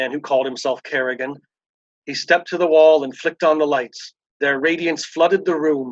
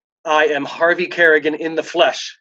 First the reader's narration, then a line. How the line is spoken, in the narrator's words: said